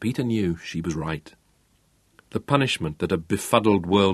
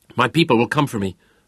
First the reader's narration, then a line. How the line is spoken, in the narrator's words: spat again